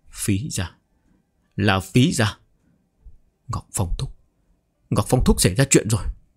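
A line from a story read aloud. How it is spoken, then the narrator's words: Chilled, pale, muttering. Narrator (Vietnamese): Úc Tiêu Âu cảm thấy lạnh toát cả toàn thân, môi tái nhợt, lẩm bẩm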